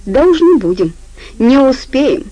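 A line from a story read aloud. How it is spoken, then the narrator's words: Sad young woman. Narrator (Russian): грустно ответила девушка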